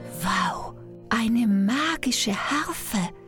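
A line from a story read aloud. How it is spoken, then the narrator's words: Whisper. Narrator (German): flüsterte Jack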